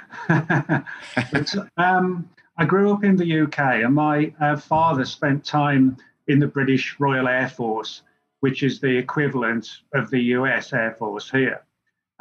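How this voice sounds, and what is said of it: English accent. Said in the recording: “I've got an English accent.”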